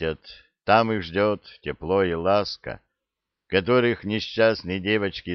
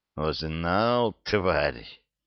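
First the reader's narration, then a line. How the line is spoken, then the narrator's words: Hissed. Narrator (Russian): прошипела девушка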